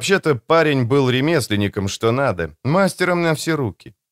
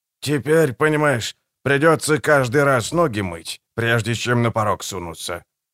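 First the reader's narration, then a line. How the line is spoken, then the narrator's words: Old man grumbling. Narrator (Russian): пробурчал старик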